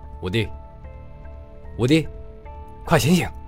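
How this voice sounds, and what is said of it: Quiet, hushed calling. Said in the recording (Chinese): “小声的叫着”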